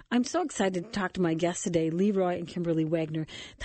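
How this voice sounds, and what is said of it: Voice affected by a cold. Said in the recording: “I've got a cold, but my voice just went on me”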